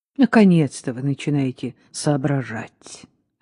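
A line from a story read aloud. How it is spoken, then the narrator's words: Relieved sigh. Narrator (Russian): облегченно вздохнул Паркинс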